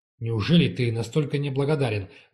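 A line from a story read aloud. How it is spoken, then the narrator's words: Serious exclamation. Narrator (Russian): воскликнул, и он явно не шутил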